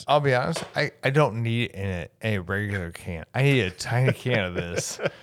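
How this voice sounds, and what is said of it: Slightly slurred speech. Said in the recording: “You're slurring a little. ... I'm 100% slurring.”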